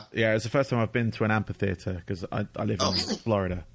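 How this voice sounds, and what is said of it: British accent. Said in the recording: “I'm from the UK, as you can hear from my voice”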